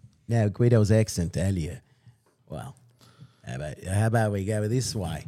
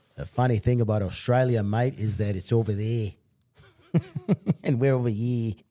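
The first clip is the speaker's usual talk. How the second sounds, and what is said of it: Put-on Australian accent. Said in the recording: “I haven't spoken Australian in a while, mate. ... You want to practice your Australian accent?”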